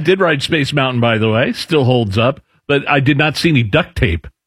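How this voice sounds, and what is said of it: Usual voice. Nothing is said of it.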